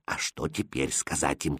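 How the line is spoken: Quiet question. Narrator (Russian): тихо спросил он шута

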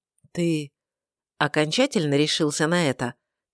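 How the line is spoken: Quiet question. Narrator (Russian): тихо спросил Мирнаэль

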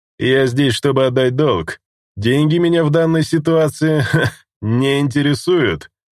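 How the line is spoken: Indifferent snort. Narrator (Russian): равнодушно хмыкнул Корневайн

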